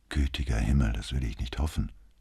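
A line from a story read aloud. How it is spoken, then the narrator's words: Quiet. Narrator (German): antwortete Brunetti leise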